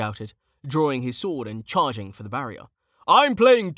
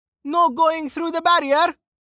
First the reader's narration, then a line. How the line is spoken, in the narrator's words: Amelia shouted